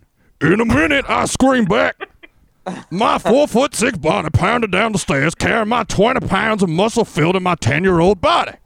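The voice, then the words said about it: Cartoon character voice, Fat Albert. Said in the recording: “I was going to do Fat Albert.”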